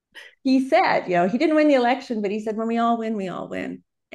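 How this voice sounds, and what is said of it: American accent. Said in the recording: “I'm American if you can't tell from my accent.”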